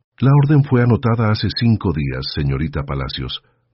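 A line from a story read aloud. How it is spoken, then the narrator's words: Plain. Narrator (Spanish): dijo Mrs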